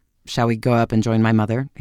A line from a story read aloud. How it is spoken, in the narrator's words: he suggested curtly